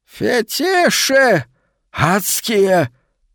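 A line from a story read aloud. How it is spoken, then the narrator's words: Distinct, emphatic hiss. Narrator (Russian): прошипел со всей возможной внятностью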